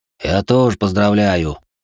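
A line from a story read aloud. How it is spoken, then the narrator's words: Muttering. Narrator (Russian): пробурчал Антон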